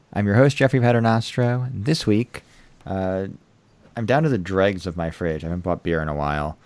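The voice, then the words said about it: American accent. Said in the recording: “Sheffield Wednesday opinion with an American accent”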